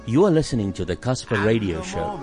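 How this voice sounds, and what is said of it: Pleasant, announcer-style voice. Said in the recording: “in a nice voice,”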